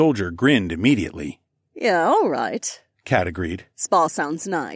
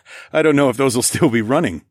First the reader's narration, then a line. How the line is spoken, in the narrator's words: I laughed